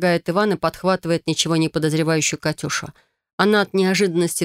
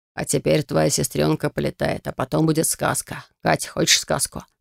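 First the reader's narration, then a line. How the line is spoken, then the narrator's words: Enchanting, mesmerizing tone. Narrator (Russian): Спрашивает он таким чарующим, таким завораживающим тоном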